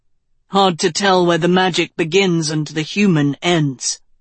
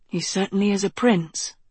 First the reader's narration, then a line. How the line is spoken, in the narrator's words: Agatha murmured